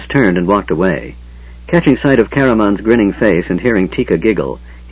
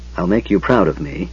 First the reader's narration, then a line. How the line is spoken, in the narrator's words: Her lips tightened and she said softly